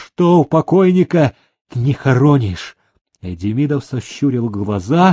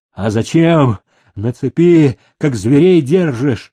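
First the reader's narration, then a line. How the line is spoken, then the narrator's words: Shouting. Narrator (Russian): закричал Киржак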